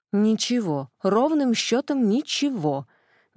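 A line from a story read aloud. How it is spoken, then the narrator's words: Irritated snap. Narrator (Russian): недовольно огрызнулась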